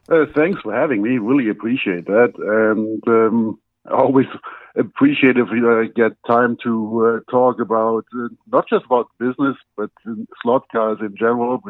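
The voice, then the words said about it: German accent. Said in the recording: “as everybody can hear from my accent, I'm not originally from the U.S. I was born in Germany”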